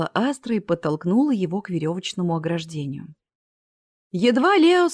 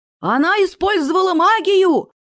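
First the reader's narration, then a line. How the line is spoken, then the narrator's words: Yelling. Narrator (Russian): заорал гном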